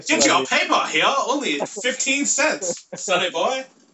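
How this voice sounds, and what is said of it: 1920s newsboy voice. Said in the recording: “sound like a 1920s newsie”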